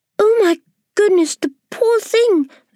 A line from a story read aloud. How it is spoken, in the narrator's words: the ladybird cried